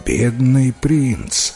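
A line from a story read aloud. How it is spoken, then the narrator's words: Sigh. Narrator (Russian): вздохнул король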